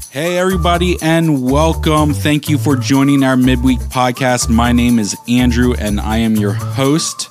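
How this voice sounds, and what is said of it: Hoarse, worn-out voice. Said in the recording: “My voice might be gone before the end of this podcast... a just lingering cough that has destroyed my throat”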